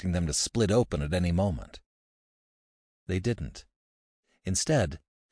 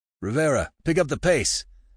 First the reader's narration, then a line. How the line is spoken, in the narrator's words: Alexander called out